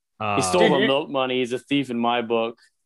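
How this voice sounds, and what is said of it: Good Marshall Bell impression. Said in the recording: “your Marshall Bell impression is awesome, man. It is really good.”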